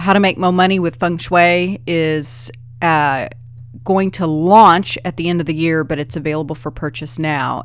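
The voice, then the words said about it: Tired, wiped-out voice. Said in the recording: “Can you hear it in my voice? Good Lord. I sound tired. ... I just sound tired and wiped out”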